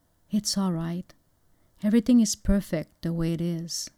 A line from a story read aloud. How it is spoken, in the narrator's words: gently, he whispered